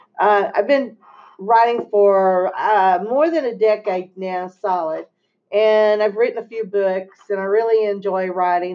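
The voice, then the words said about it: Texas accent. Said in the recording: “I'm from Texas, as you can tell with my accent.”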